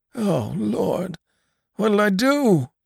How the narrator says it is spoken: groaned the old man

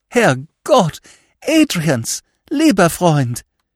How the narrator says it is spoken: cried emotionally

